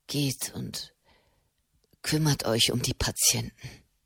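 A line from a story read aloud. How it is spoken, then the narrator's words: Murmuring. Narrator (German): murmelte Matteo Cenni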